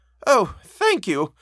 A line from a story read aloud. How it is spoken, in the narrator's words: my friend cried